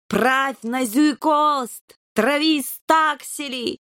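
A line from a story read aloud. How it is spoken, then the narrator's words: Bellowing through cupped paws. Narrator (Russian): сложив лапы рупором, заорал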